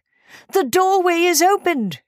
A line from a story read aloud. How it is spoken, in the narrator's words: cried